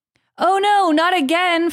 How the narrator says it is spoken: Frodo cried from deep within the dark cave

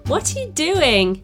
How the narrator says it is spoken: she laughed

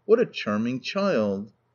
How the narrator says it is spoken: looking earnestly at her said

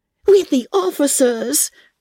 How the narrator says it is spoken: cried Lydia

